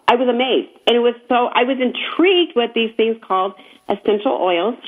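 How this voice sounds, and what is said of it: Hoarse, failing voice. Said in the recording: “She needs to work on your voice... Losing it... I am totally losing it... I'm losing my voice.”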